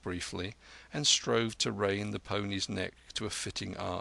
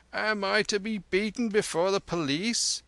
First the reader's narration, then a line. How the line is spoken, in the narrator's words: cried the carter